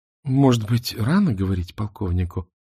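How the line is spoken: Gentle, guiding. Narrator (Russian): мягко подвела его Мона

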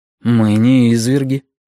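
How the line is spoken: Sighing after pause. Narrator (Russian): вздохнул после паузы человек с мягкой улыбкой

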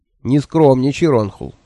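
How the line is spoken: Grumbling. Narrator (Russian): проворчал Кугайна

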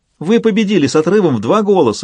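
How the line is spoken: Exclaiming. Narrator (Russian): воскликнула Анжелина

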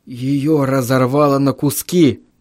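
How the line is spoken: Hoarse wheeze. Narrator (Russian): прохрипел я

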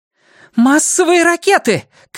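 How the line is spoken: Shouted. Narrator (Russian): крикнула Хакль

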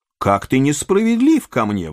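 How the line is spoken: Exclaimed. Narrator (Russian): воскликнул лорд Генри

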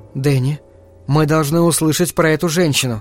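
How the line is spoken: Soft, gentle speech. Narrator (Russian): мягко сказала Венди

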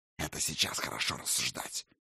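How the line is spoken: Displeased grumble. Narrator (Russian): недовольно буркнул сын Локи

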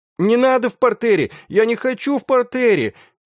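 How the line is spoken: Proud shout from behind. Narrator (Russian): из-за спин кричал гордый Янош

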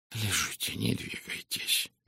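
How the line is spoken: Gentle. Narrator (Russian): мягко сказал он

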